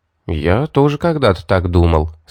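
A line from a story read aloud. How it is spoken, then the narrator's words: Plain. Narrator (Russian): сказал я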